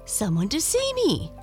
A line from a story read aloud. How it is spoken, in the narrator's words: she exclaimed